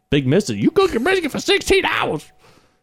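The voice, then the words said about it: Imitates another person's voice. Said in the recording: “my Big Mista impersonation.”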